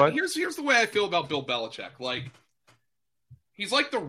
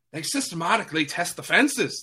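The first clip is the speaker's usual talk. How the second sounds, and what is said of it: Put-on Irish accent. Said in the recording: “That was my Irish accent.”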